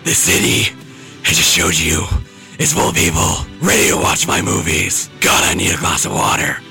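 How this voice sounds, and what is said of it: Gravelly, raspy Batman voice. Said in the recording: “doing the Batman voice. It sounds like you smoked a whole Marlboro factory”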